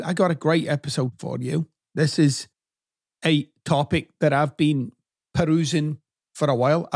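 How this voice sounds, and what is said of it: Accent between McConaughey and Billy Connolly. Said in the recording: “stuck somewhere between Matthew McConaughey and Billy Connolly. Not physically, of course, just in terms of the accent.”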